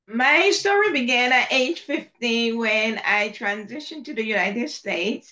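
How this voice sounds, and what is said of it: Slight accent. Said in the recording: “a little bit of an accent”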